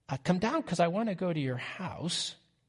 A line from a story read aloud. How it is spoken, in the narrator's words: the crowd start to mutter